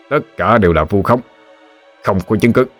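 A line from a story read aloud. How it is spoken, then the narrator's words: Harsh, gritted voice. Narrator (Vietnamese): gằn giọng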